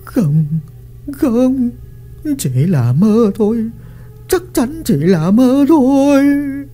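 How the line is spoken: Trembling mutter. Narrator (Vietnamese): Lý Phùng run rẩy, miệng lẩm bẩm

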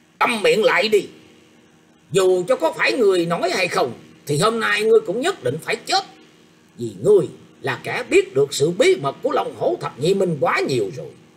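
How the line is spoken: Startled loud shout. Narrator (Vietnamese): Ôn Quốc Tường không khỏi giật mình, sắc mặt cũng liền thay đổi quát to lên rằng

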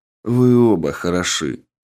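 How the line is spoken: Calm. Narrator (Russian): спокойно произнес я

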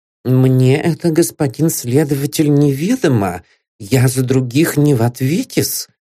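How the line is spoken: Timid speech. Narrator (Russian): робко выговорил портной

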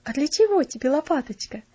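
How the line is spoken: Laughing question. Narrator (Russian): спросила Марта, смеясь

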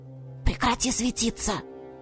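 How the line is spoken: Whisper. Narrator (Russian): шепнула подруга

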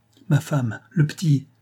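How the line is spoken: Exclaimed. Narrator (French): s'écria-t-il

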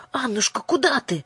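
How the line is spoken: Exclaiming. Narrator (Russian): воскликнула Ясмин

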